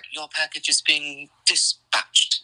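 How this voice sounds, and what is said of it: Posh English accent, done well. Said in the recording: “I love that accent there. You actually did that pretty well. ... When you're talking in high English”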